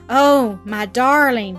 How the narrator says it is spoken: exclaimed in low, moved tones

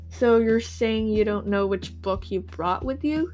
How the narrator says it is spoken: She asked, then groaned

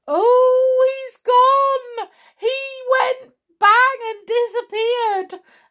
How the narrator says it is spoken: howled Sam

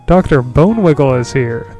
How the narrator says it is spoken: the count exclaimed to Kyra

